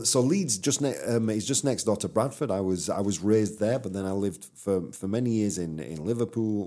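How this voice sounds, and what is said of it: Strong Yorkshire English accent. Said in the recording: “your accent's very different than mine ... quite a strong accent ... I'm from Yorkshire. I'm from Bradford, to be precise.”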